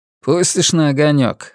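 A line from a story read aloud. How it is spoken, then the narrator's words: Snorting. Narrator (Russian): хмыкнул он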